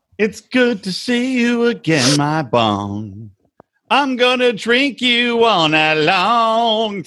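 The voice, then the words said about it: Singing with a country twang. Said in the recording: “Some country twang.”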